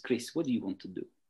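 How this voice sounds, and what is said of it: Poorly imitated Russian accent. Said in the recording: “in her Russian accent... I just did the worst impression”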